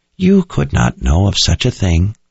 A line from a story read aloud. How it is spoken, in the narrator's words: Addie said in a comforting tone